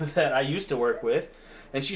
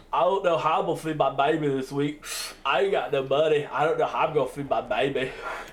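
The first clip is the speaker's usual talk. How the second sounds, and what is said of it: Imitates another person's voice. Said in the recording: “she used to call everybody baby. She used to say it just like that ... I love that impression.”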